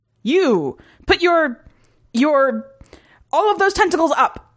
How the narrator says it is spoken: the human soldier shouted

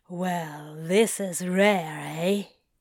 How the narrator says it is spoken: Crowley drawls

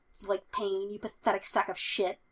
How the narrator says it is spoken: Murdoch growls

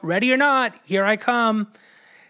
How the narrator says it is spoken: him shout

